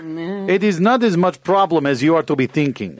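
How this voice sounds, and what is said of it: Put-on foreign accent. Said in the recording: “If you are American spy, why are you not dropping of your accent?”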